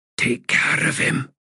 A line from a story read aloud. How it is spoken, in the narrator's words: he whispered